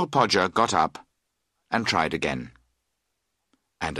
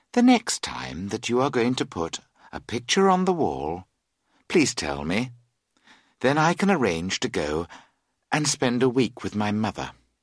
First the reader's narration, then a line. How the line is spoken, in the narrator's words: She added calmly